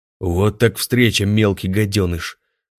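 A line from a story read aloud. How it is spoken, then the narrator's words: Gloating giant's growl. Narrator (Russian): злорадно прорычал великан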